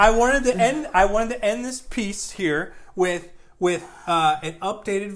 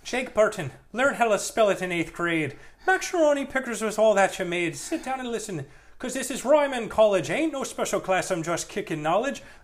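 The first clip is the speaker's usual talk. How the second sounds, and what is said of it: Elderly Irish man singing impression. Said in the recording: “my impression of an elderly man, an elderly Irish man, singing”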